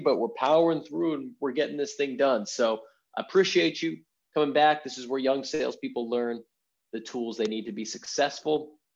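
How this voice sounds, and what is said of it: Hoarse, scratchy voice. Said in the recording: “my voice is a little hoarse ... the voice is scratchy”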